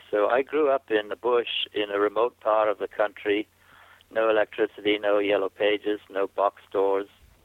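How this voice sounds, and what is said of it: Mixed, hard-to-place accent. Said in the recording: “my accent's just a mess. I can't tell you where I came from ... You've got a little bit of everything in your accent.”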